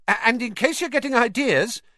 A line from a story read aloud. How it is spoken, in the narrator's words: he added hastily